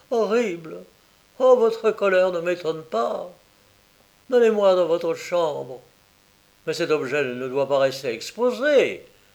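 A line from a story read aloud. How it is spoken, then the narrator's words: Exclaiming. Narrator (French): s'écria Mortimer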